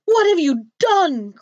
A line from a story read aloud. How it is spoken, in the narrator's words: cried the princess